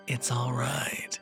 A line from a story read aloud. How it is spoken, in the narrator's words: she said, the raspy, deep voice bleeding through, along with a sick, gurgling laugh